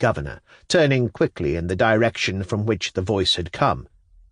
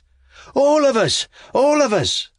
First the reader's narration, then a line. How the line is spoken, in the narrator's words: others exclaimed